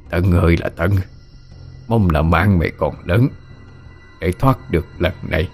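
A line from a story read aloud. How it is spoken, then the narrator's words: Low muttering. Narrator (Vietnamese): Ông trung trung giọng lẩm bẩm nói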